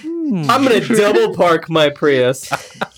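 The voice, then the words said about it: Impression of an evil hipster. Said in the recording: “That was a impression... That's what hipster does every morning... what an evil hipster would do”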